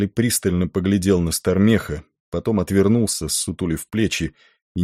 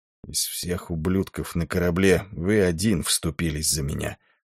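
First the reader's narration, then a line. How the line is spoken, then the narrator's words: Muttering. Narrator (Russian): пробормотал он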